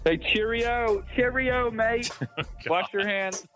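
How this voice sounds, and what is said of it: Bad put-on English accent. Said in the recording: “That's the worst English accent ever said on a podcast. That was good.”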